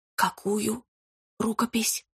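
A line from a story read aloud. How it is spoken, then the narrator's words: Whispered. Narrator (Russian): прошептала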